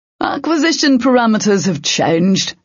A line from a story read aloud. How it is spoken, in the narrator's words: the puppeteer called out